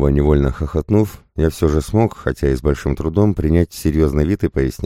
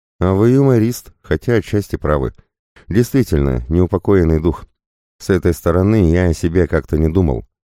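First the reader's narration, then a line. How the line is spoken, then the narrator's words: Amused, after laughing. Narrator (Russian): Отсмеявшись, я, вытирая платком выступившие слезы, сказал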